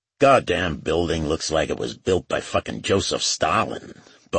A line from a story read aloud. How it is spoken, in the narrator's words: Bob grumbled